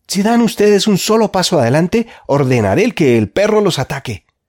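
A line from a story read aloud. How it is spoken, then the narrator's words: Shouted. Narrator (Spanish): gritó Jorge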